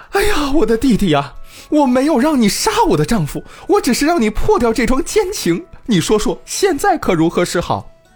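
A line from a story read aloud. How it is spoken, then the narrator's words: Shocked wailing. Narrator (Chinese): 妻子听了惊愕万分，大哭起来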